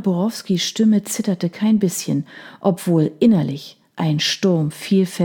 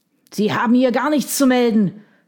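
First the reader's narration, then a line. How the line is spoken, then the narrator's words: Shout. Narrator (German): schrie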